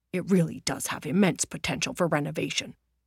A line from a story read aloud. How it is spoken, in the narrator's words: Roger turned to Annalena and whispered